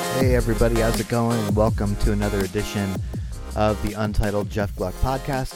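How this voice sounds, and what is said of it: Sick, strained speaking voice. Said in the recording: “you'll have to excuse my voice again. I'm still getting over some sort of an illness”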